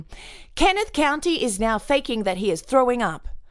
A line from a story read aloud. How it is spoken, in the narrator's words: She then could be heard saying loudly